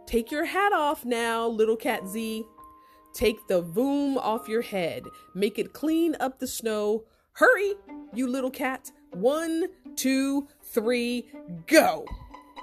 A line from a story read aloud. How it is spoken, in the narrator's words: he yelled